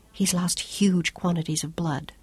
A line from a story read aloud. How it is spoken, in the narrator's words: Claudia whispered